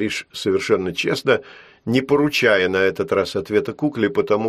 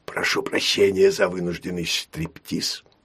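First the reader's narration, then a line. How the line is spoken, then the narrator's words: Whisper. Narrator (Russian): прошептал он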